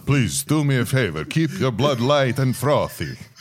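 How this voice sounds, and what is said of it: Count Dracula vampire accent. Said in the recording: “in like a Count Dracula accent”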